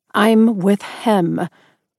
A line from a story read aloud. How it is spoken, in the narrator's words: I growled fiercely